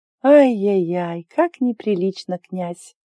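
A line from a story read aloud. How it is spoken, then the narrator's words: Purring. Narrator (Russian): промурлыкала Ари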